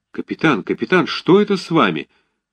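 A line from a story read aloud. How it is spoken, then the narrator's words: Frightened exclamation. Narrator (Russian): воскликнул Щевинский почти в испуге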